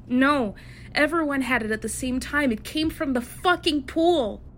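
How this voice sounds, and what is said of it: Shouting in a raised voice. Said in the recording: “Please. Please lower your voice. ... Please, I ask you to lower your voice.”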